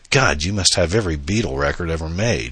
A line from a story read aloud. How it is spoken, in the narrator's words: she exclaimed